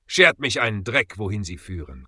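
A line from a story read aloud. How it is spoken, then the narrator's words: Growled. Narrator (German): knurrte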